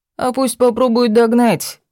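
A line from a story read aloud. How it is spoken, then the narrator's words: Relatives laughing. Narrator (Russian): засмеялись родственники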